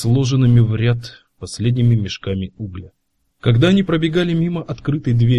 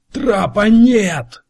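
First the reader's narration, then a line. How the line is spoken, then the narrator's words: Shouting out. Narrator (Russian): выкрикнул Дево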